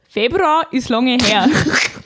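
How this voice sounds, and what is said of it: Put-on Upper Bavarian dialect. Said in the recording (German): “Ich mach's im Dialekt, okay? ... Oberbayerisch? ... Oberbayerische.”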